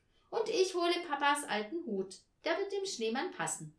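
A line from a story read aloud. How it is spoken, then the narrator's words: Calling out. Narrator (German): rief Tina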